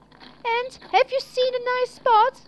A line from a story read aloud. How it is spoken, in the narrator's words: Brave Hunter called out